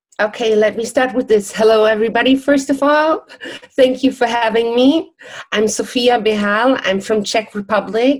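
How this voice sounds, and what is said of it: Non-native, non-English accent. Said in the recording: “It's not exactly an English accent.”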